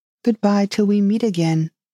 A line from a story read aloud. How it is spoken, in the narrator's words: said as cheerfully as she could